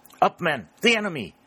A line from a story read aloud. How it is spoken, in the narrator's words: a voice shout